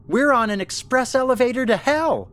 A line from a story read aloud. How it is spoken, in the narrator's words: Ellen shouted